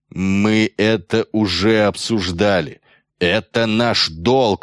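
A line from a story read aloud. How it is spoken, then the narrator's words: Growl. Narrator (Russian): рыкнул на него Метцов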